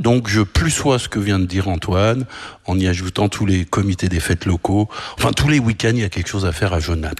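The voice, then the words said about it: Slight French accent. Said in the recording (French): “On a entendu une légère pointe d'accent français”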